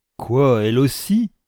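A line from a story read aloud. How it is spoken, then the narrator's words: Sneering laugh. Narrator (French): ricana la fille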